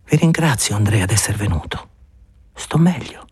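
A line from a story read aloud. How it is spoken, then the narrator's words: Tired murmur. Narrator (Italian): la voce stanca di Elena che mormorava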